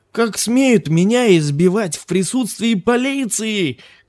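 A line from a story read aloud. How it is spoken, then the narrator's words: Shouting carter. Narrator (Russian): кричал возчик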